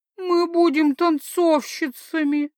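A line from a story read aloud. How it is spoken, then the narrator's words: Moaning. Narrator (Russian): простонала Норандириэль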